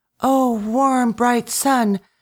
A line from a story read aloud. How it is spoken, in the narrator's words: she cried